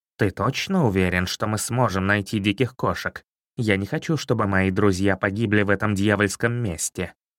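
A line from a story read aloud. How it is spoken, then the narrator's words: Plain. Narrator (Russian): наконец сказал он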